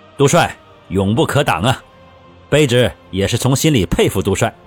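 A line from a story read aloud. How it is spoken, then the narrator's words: Smiling, admiring. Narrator (Chinese): 李崇进也笑着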